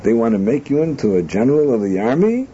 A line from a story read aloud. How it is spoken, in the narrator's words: He exclaimed